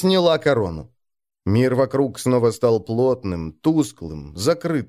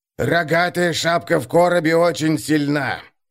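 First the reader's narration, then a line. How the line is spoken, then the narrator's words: Wheezing old man. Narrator (Russian): прохрипел старик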